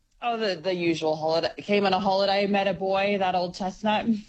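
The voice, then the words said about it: Canadian accent with slight Australian mix. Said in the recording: “we've got a little North American accent there ... We've got a Canadian accent ... You've got a little bit of Aussie thrown in there too ... your international accent”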